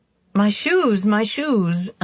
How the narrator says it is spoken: another voice cried

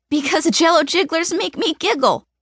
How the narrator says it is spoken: I giggle after the line

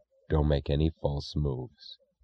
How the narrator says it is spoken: he said in an expressionless voice

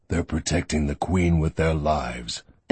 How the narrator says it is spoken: Barron said flatly

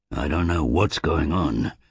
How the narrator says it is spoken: said Druss

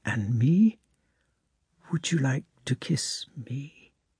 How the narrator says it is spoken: she whispered almost inaudibly, smiling and almost crying from excitement

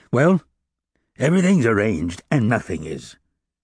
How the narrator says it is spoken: said Fauchelevent

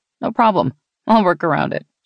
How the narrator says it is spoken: she giggled then

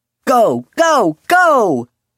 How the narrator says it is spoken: Julian shouted, laughter shaking his voice

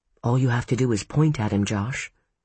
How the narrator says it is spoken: Ellen murmured

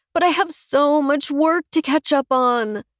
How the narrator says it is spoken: she moans

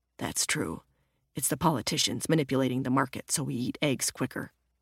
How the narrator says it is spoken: muttered

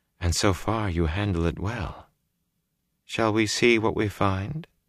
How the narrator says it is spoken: she said softly

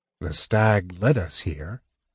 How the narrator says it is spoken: he said slowly

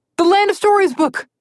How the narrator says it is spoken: Connor yelled

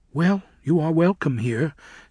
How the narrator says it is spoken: said Sarima, as smoothly as she could

